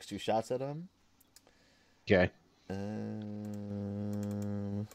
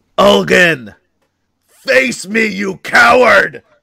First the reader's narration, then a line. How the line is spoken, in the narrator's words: Silver Wolf yells